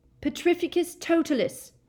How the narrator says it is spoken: shouted Harry

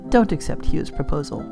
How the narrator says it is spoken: Paula whispered

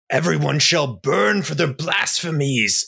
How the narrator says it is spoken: Ebby kind of sneers out and says

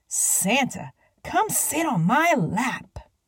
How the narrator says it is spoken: Harriet whisper shouted

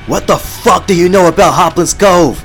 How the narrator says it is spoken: screamed

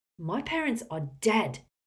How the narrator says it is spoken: Harry bellowed

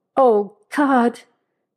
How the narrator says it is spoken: Chauncey gasped

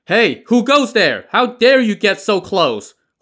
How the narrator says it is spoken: Huang Wenbing's attendants shouted at the oncoming boat

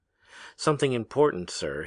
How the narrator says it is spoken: he said

